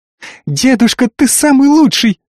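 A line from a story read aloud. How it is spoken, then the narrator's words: Delighted squeak. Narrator (Russian): восторженно пискнула Ай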